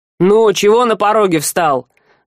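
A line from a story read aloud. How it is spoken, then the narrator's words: Rude. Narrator (Russian): грубо обратился наемник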